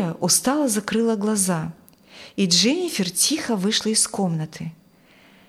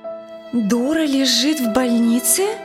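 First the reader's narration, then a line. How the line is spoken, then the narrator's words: Incredulous exclamation. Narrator (Russian): не веря услышанному, воскликнула Дженнифер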